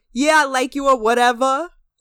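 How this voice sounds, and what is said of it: Imitated Brooklyn accent. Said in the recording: “he is about as Brooklyn as it gets. His fucking accent is Brooklyn as hell.”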